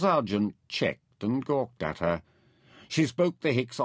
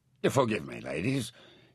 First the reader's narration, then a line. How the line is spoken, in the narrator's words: mumbled